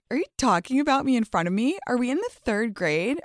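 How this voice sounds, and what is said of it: Mocking, catty confrontational voice. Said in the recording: “I already put on my toxic bitchy voice”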